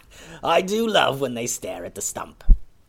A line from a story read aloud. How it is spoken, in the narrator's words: a voice behind them laughed and said